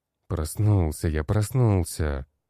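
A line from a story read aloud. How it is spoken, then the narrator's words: Grumbling. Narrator (Russian): проворчал я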